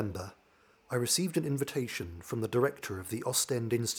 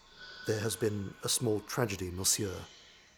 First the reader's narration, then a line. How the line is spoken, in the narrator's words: gravely informed